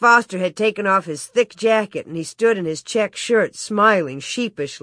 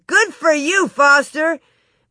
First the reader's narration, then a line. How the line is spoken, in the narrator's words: some man shouted